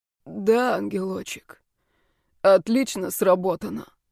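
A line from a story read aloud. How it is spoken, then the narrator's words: Hoarse voice. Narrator (Russian): с хрипотой произнес Блейк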